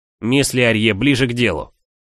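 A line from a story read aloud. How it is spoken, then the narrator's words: Barked. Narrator (Russian): рявкнул Торренс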